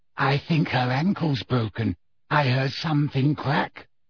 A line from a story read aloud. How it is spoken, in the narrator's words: whispered Luna